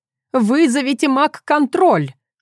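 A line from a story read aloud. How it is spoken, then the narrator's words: Old woman shouting. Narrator (Russian): крикнула им вслед бабушка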